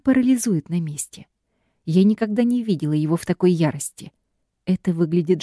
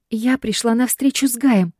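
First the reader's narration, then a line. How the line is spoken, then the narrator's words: Trembling voice. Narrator (Russian): дрожащим голосом отвечаю я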